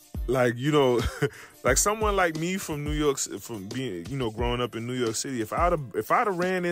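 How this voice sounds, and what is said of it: Usual voice. Nothing is said of it.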